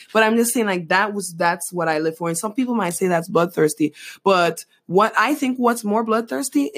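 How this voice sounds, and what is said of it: Usual voice. Nothing is said of it.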